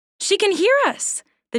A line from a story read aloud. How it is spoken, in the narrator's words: the doe said excitedly